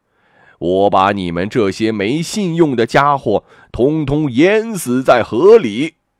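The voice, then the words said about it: Scary old turtle voice. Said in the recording (Chinese): “老乌龟用可怕的声音说”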